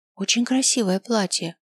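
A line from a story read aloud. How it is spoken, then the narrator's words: Whisper in the ear. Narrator (Russian): шепнула мне на ухо Франциска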